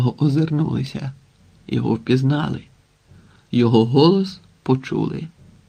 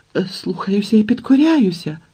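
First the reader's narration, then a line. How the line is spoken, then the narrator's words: Trembling wail. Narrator (Ukrainian): тремтячим голосом заволав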